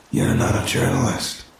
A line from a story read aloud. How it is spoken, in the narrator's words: he said, his voice low and gravelly